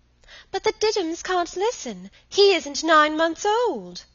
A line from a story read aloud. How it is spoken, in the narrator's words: she pleaded